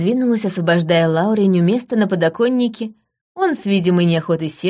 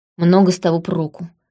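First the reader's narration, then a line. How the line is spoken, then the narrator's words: Grumbled. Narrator (Russian): буркнул Лаурень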